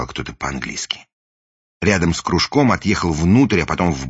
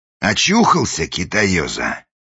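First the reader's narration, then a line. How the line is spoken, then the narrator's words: Menacing question. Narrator (Russian): грозно спросил вошедший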